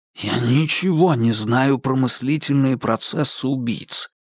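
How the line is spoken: Hiss. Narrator (Russian): прошипел Джеймс

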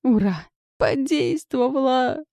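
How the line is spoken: Uncontrolled yell. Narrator (Russian): Не сдержавшись, завопила я

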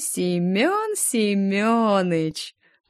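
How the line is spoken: Drawn-out drawl. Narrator (Russian): протянула

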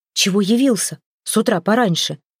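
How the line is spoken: Hushed shout. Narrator (Russian): вполголоса крикнула Хёрдис Бергу

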